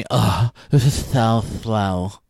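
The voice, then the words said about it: Slow, drawling valley girl voice. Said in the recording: “worst impersonation ... a sloth valley girl. It's like a sloth valley girl.”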